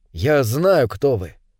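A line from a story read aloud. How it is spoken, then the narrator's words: Quiet. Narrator (Russian): тихо сказал Дэвид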